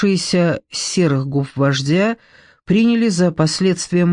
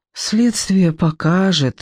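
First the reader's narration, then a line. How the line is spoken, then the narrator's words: Weary reluctant exhale. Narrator (Russian): выдохнула Надежда Константиновна, не желавшая вести спор с тяжело больным человеком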